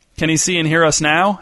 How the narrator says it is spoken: asked someone else

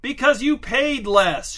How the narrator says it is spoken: shouted Angelo

